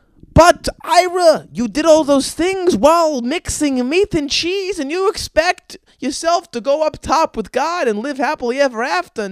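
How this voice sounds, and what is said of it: Put-on Jewish accent. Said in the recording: “that was a spot-on Jewish accent”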